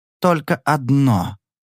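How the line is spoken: Slow. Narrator (Russian): произнес он медленно

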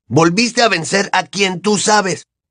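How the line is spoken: Nearly shouting. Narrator (Spanish): continuó Ron, ya casi a voz en grito

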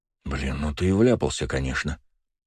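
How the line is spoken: Muttering. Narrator (Russian): пробормотал Леня

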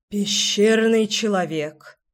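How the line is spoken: Sighing. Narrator (Russian): вздохнула Леся

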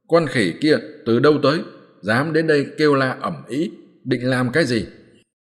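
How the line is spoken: Loud demon shout. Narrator (Vietnamese): điểm 50 tên tiểu yêu tinh tráng, cao giọng quát lớn

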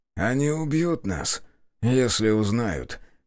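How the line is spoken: Heavy sigh. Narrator (Russian): тяжело вздохнул собеседник

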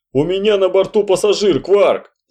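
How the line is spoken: Shouting. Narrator (Russian): закричал Шульц

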